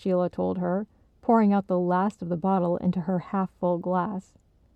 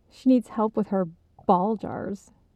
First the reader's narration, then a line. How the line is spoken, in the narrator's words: Alicia's mom giggled, putting a strong emphasis on the buh sound at the beginning of the word